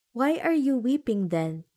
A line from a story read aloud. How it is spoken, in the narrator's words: asked the swallow